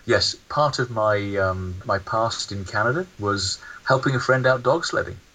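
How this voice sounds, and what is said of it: Noticeable foreign accent. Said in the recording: “as you can tell by the accent”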